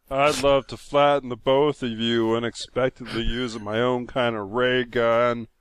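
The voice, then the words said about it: Imitates another person's voice. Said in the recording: “imitating ... that was me being Penn”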